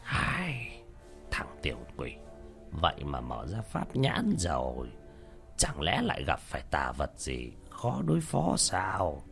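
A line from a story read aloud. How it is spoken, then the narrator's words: Muttering. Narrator (Vietnamese): lẩm bẩm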